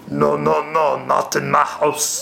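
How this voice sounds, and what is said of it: Dikembe Mutombo impression. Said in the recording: “good Mutombo impersonation.”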